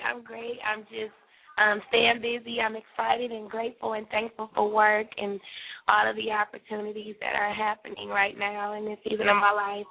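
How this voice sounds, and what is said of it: Hoarse, tired voice. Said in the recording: “I'm hoarse right now, so I don't know if you can tell, but I'm a little tired”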